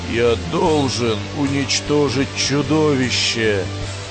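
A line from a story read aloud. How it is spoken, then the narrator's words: Hoarse. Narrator (Russian): хрипло промолвил Строй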